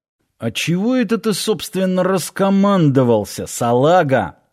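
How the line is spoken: Angry hiss. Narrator (Russian): сердито зашипел Киркин

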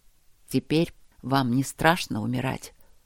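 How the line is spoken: Hoarse, breathless question. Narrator (Russian): спросил Макс хрипло, переводя дыхание

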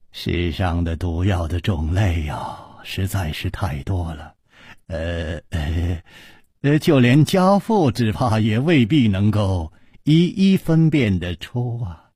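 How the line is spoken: Sighing. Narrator (Chinese): 李玉涵叹了一口气说

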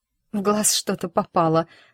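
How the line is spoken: Trembling voice. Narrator (Russian): дрожащим голосом проговорила

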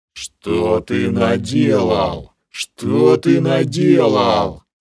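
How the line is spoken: Furious roar. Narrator (Russian): Проревела кобра, в бешенстве

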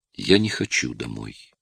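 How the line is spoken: Little girl's whisper. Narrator (Russian): прошептала девочка

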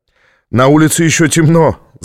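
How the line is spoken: Laughing. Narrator (Russian): засмеялся он

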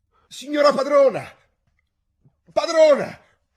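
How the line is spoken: Frightened, trembling shout from window. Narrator (Italian): Spaventata e tremando tutta, gridare dalla finestra

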